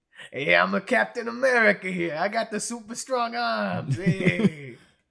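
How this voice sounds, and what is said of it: Exaggerated Brooklyn accent, tough-guy voice. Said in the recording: “they all pretty much have dumb accents ... Very strong Brooklyn accents”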